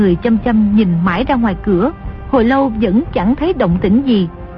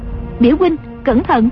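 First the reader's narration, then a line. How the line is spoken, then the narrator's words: Cry out. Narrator (Vietnamese): Dương Ngữ Yên lại kêu lên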